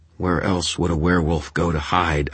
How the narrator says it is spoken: I snapped

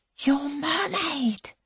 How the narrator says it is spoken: she whispers

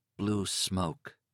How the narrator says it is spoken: he muttered

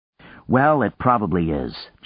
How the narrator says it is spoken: John said

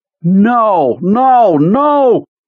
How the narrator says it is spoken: Pete screamed at it

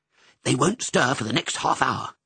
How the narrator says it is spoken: whispered Lucky

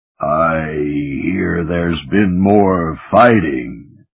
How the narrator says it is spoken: Katha John rumbled in deep underwater Anglic

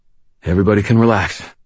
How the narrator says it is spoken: I panted

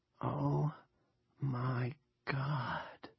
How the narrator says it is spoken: Nori whispers

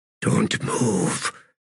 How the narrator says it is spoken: came Quick Ben's whisper

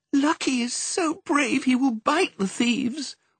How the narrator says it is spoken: wailed Perdita

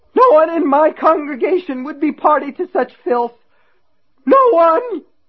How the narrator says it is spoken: His voice splintered on the last word

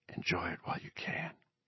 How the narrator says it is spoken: Bobby whispered

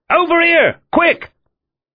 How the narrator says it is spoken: Sullivan shouted

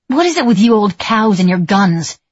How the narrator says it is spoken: I shouted

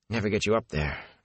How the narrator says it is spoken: Matt muttered

